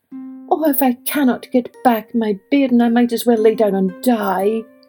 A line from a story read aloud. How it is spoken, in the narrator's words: she wailed